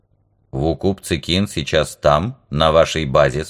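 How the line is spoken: Plain. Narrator (Russian): спросил Вок

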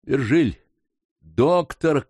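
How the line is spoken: Shout. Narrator (Russian): крикнул он

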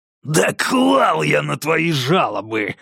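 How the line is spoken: Growl. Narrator (Russian): зарычал Конгден

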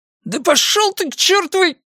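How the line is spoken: Howled. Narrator (Russian): Кёртис взвыл

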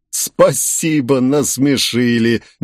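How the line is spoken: After laughing. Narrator (Russian): молвил он, отсмеявшись

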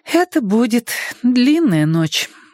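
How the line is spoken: Sighing. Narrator (Russian): вздохнула Цифраль

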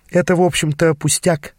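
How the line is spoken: Sighed. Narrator (Russian): вздохнула она

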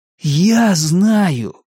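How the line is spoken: Revelatory exclamation. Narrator (Russian): воскликнул он, словно ему открылась великая истина

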